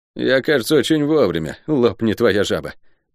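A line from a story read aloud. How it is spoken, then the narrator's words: Gloomy. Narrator (Russian): мрачно выдал солдат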